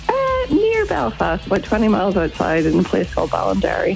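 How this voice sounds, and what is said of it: Irish accent. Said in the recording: “that is a beautiful Irish accent I can hear”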